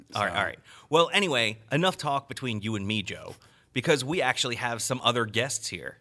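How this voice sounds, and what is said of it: Baltimore accent. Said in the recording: “are you making fun of my speech again? ... Weird Baltimore accent.”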